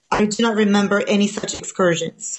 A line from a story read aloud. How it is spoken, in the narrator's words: he said